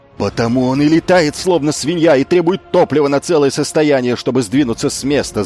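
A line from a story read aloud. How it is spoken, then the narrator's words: Yelled. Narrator (Russian): завопил Асон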